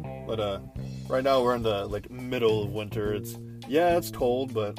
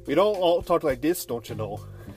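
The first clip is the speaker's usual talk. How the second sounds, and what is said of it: Put-on Minnesota accent. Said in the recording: “I live in Minnesota, which, yes, surprisingly, I don't have an accent.”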